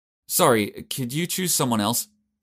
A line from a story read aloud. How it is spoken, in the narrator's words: Jace said timidly